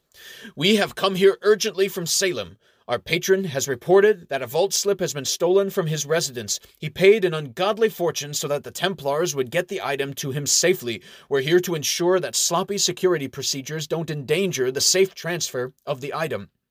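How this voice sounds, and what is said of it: Authoritative voice. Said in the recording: “puts on his most authoritative voice”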